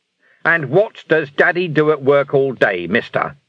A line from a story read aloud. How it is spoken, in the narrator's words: he roared